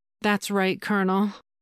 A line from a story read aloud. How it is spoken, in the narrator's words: she purred